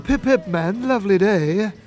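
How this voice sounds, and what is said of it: Put-on British accent. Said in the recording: “put on a British accent”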